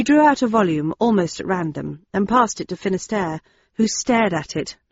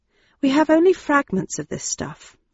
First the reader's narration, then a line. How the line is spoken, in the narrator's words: I murmured